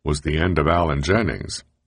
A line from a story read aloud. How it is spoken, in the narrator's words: chuckles Shapiro